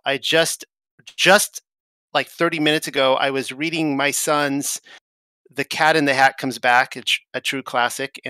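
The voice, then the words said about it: Tired, strained, fading voice. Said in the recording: “I'm exhausted. I'm actually losing my voice right now.”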